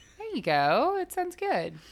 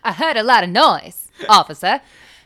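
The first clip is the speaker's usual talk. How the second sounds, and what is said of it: Put-on transatlantic accent. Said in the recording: “that fucking transatlantic accent ... It just sounds like I've had too much coffee”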